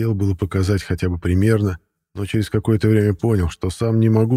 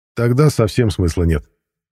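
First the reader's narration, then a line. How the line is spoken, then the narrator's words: Scoffing snort. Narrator (Russian): хмыкнул Матвей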